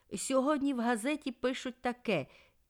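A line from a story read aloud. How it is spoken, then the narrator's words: Shouting. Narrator (Ukrainian): він закричав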